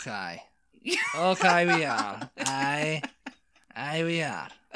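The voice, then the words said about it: Put-on Irish accent. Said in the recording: “this is a great Irish accent I'm talking about now”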